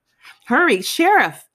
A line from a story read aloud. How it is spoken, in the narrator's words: he cried